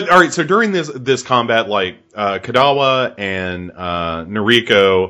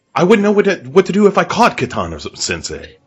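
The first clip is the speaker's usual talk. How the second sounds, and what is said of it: Bad Joker character voice impression. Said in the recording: “worst Heath Ledger impression as the Joker you will ever hear in your life”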